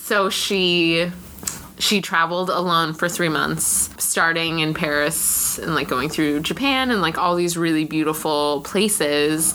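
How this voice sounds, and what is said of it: Valley Girl accent. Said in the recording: “I can only do one accent, and it's Valley Girl, and you're listening to it right now”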